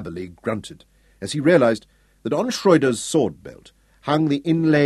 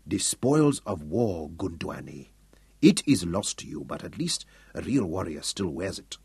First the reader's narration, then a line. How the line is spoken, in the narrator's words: said softly